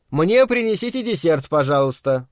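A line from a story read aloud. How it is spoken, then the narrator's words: Loud. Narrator (Russian): громко сказал он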